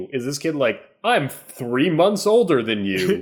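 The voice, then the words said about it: Mock voice of a bragging twin. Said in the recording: “Is that your impression of all twins? ... It's my impression of everyone.”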